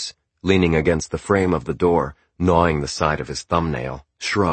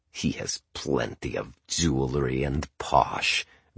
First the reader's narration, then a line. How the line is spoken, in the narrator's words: growled Boris around the side of his thumb